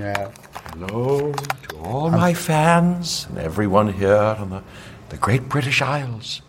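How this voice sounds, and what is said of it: Put-on British accent. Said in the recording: “Good, that was good. Have you ever had to do a British accent?”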